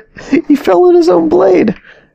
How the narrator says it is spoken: Victor said with a laugh

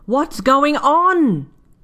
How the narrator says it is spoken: she shouts

